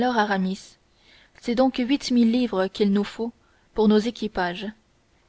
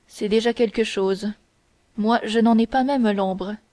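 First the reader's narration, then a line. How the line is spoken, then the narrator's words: Cold. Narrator (French): dit froidement Athos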